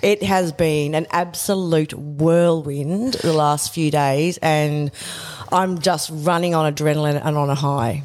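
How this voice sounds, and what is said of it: Strained, nearly lost voice. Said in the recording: “who has almost lost her voice ... my voice is going”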